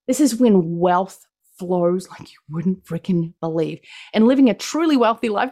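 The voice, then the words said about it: New Zealand accent. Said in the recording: “I'm from New Zealand. That's what my accent is. It is not Australian.”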